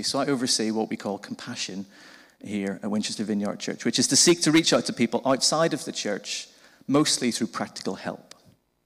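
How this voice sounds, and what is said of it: Northern Irish Belfast accent. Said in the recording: “I'm originally from Belfast in Northern Ireland. You might have picked that up from the funny accent.”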